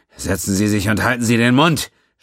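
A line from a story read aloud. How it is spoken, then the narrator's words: Snapping. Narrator (German): schnauzte Quinn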